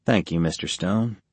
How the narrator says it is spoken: Tony said quietly

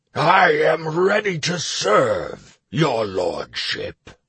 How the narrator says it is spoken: the orc boomed, interrupting Garenika's exclamation

